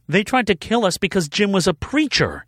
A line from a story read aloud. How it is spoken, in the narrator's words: she exclaimed